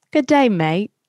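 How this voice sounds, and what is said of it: Put-on Australian accent. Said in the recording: “in an Australian accent”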